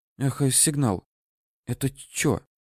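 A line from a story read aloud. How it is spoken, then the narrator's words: Whispered question. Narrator (Russian): Шепотом поинтересовался Митя, никому не обращаясь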